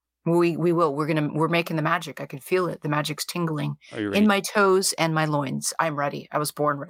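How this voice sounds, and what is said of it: Strained, unusually deep raspy voice. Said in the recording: “apologize for my voice. It's a tiny bit strained. I do have a deep voice. It's unusually deep today. ... I did a little strain on ye old voice box, and that's why I sound like I'm gargling frogs right now. ... A little bit raspy.”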